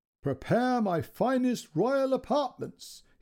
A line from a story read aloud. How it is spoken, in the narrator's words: he yelled